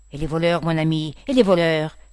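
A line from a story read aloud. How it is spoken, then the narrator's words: Priest's exclamation. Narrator (French): s'écria l'abbé Chasse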